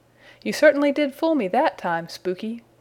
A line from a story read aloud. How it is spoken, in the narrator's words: cried Peter